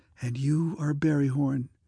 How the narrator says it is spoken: she breathed

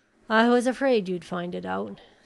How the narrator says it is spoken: sighed the doctor

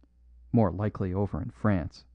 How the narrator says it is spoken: muttered the cobbler

